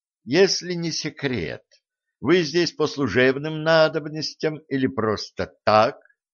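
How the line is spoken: Plain. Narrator (Russian): спросил Легран

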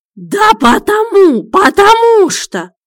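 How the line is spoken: Howling. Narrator (Russian): взвыл он

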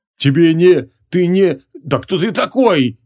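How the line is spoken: Hoarse rasp. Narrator (Russian): хрипел он

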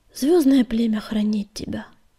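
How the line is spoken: Relieved sigh. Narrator (Russian): с облегчением вздохнул Огнегриф

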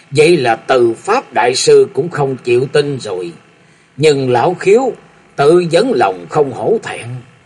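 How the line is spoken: Booming laughter, then speaking. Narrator (Vietnamese): Phong Lôi Thánh Thủ Thôi Thiên Hành nổ khí phát lên cười lớn một tràng rồi nói

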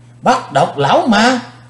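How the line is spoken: Crowd shouting in unison. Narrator (Vietnamese): Quần hùng đồng thanh kêu lên

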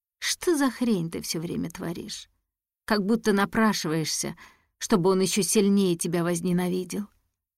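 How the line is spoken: Sighing. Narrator (Russian): Вздохнув, она сказала

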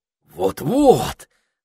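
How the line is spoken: Excited wizard. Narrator (Russian): взволнованно продолжал волшебник

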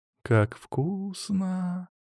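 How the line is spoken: Girl drawling. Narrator (Russian): протянула девушка

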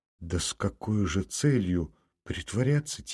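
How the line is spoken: Quiet. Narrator (Russian): тихо сказала Варенька

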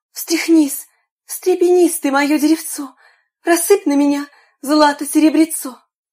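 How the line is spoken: Exclaimed. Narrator (Russian): заморашка воскликнула

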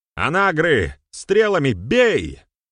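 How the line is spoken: Shout. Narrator (Russian): крикнул Берамир

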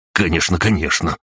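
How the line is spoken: Rapid patter. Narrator (Russian): протараторил Светлогоров

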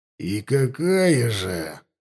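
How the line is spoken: Through clenched teeth. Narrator (Russian): сквозь зубы спросил Шрам

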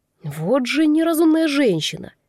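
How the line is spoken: Through gritted teeth, behind. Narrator (Russian): процедил сзади голос Криса

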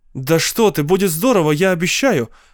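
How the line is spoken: Exclaimed. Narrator (Russian): воскликнула я

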